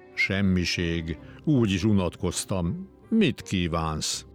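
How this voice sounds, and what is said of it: Deep character voice. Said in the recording (Hungarian): “A nagy harcsa mély hangon válaszolt.”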